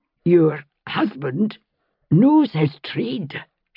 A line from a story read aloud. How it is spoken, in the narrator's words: she said hoarsely